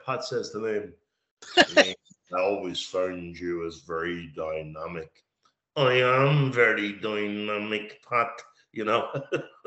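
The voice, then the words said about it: Flat monotone imitated voices. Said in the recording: “they were both very monotone”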